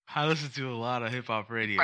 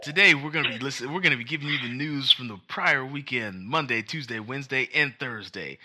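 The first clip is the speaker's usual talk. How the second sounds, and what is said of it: Radio announcer voice. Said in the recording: “Dude, you're so good at that. ... With a radio voice?”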